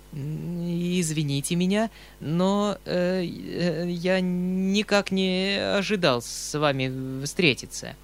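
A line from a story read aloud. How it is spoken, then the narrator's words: Stammering with a smile. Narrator (Russian): проговорил он, улыбаясь и заикаясь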